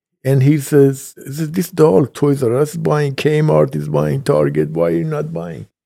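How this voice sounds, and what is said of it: Speaks with a noticeable accent. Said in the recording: “This is my accent.”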